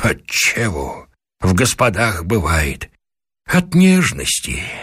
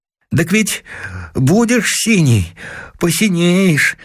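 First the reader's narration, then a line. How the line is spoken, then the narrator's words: Timid. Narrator (Russian): отвечает робко Коля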